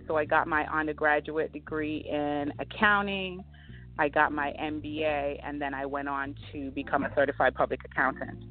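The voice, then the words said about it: Caribbean accent. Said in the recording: “we hear the Caribbean accent in your voice”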